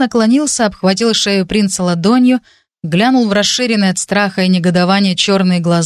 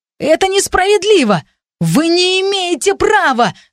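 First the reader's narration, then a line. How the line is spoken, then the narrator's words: Yelled. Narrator (Russian): заорал принц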